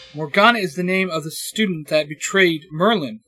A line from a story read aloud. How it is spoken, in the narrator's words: Asuna shouts